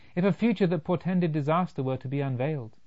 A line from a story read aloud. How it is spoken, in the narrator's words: exclaimed